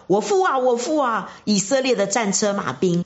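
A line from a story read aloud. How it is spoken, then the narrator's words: Crying out. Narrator (Chinese): 他就呼叫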